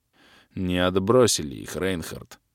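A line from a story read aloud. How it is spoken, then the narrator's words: Sighing. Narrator (Russian): вздохнул майор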